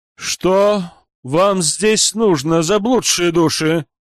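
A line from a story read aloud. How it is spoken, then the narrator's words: Loud, clear ringing shout. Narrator (Russian): зычным чистым голосом выкрикнул священник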